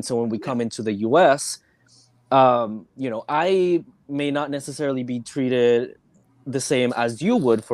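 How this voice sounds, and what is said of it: Slight accent, not very thick. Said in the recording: “my accent is not super thick like other people have... But still, like, there's still sort of an accent... Oh, I can tell an accent.”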